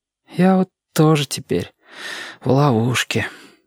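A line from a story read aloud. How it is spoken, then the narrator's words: Sigh. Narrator (Russian): вздохнул Сашка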